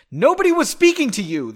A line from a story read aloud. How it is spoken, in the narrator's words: the elder snapped